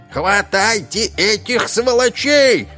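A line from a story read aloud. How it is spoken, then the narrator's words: Yelled. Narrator (Russian): заорал господин Ломозуб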